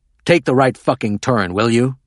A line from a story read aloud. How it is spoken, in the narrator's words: Hoffman growled